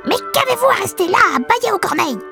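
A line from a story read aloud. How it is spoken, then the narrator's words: Enraged shout, dwarf. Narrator (French): cria le nain en devenant rouge de rage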